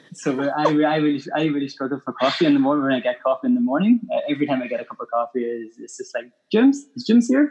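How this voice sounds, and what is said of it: Strong Northern Irish accent. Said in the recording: “I've got a bit of an accent... I'm from Ireland, Northern Ireland... my accent has definitely, as strong as it is, it's definitely a lot less than what it used to be”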